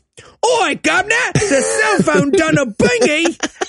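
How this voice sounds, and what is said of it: Put-on Cockney accent. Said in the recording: “decides he's going to do a Cockney accent”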